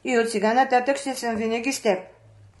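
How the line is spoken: Calm dragon reply. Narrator (Bulgarian): отговорил спокойно змеят

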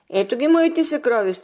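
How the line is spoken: Princess exclaiming. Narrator (Bulgarian): извика княгинята

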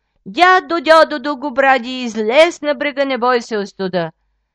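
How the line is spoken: Calling out three times. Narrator (Bulgarian): 3 пъти извикал

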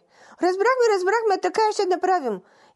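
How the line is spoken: Tearful assurance. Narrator (Bulgarian): уверявали кобилите през сълзи

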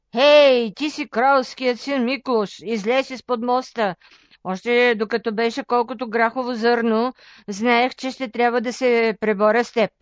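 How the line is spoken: Monster shouting. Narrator (Bulgarian): Седмоглавият змей извикал

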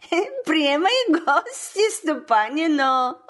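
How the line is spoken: Laughing. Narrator (Bulgarian): засмяла се и рекла

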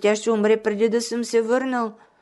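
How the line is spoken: Tearful. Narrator (Bulgarian): прибавил той през сълзи

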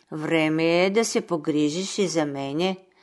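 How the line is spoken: Gentle, quiet, smiling. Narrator (Bulgarian): кротка и усмихната тихичко му казала

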